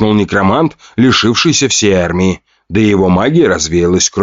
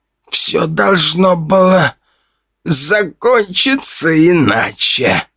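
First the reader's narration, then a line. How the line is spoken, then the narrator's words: Dying old man's wheeze. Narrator (Russian): хрипел старик, истекая практически черной кровью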